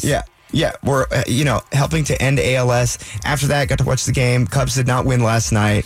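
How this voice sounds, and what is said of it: Slightly raspy voice. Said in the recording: “I don't know if you can hear my voice, but I'm a little bit raspy.”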